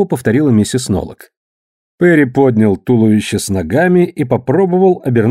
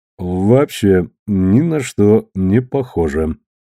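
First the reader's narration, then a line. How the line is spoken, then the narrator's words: Gloomy statement. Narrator (Russian): мрачно констатировал Перри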